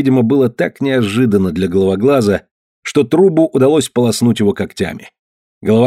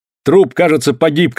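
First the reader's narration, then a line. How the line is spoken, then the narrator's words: Shouted. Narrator (Russian): крикнул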